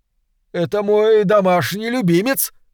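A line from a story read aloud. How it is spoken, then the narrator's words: Shout with forced smile. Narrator (Russian): крикнул он пьяницам, с трудом выдавив улыбку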